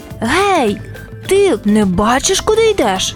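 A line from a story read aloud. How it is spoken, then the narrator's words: Shout. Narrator (Ukrainian): закричав Гриша, не розібравшись, хто перед ним стоїть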